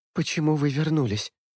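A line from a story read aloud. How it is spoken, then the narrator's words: Hoarse woman's voice. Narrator (Russian): хрипло произносит Джессика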